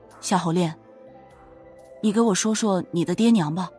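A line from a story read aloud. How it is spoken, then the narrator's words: Soft. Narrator (Chinese): 他轻声说道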